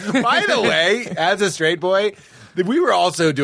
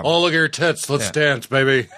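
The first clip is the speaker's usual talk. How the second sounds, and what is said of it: Mock deep straight-guy voice. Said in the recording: “I'll speak more deeply ... doing an impression of straight boys”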